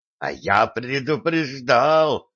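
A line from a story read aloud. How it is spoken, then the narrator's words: Angry hiss. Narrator (Russian): злобно прошипел Сан Саныч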